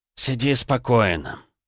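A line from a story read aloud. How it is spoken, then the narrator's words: Mocking snort. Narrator (Russian): насмешливо фыркнул Туман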